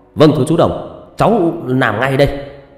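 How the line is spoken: Loud, formal shout. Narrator (Vietnamese): Quân nghiêm người hét to

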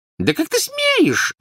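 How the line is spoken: Squeaking. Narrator (Russian): запищала тетя Петунья

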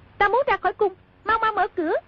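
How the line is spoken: Shouting. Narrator (Vietnamese): Công chúa quát

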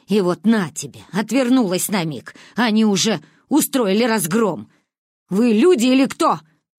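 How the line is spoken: Shouting. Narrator (Russian): выкрикнула она

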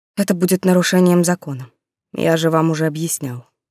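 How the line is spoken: Resigned weary sigh. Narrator (Russian): обреченно устало вздохнул Рессалт

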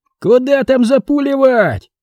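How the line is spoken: Mechanical soldier's yell. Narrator (Russian): моторно заорал боец из пулеметного гнезда

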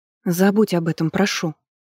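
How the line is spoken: Frightened interruption. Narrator (Russian): испуганно прервала его жрица

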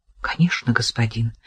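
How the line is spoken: Whisper, young woman. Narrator (Russian): прошептала девушка

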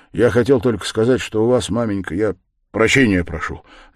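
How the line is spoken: Sharp, clipped. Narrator (Russian): заключил он резко и отрывисто

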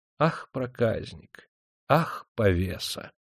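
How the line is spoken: Drowsy tender whisper. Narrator (Russian): засыпая, умиленно шептала

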